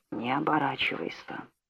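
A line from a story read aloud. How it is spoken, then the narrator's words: Scorching whisper in ear. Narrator (Russian): испепеляющий шепот прямо в ухо Филариона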